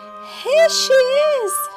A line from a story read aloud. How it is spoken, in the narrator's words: he cried, making his teeny little voice as loud as he could